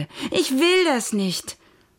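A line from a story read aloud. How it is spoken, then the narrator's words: Shouted. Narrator (German): schrie Merle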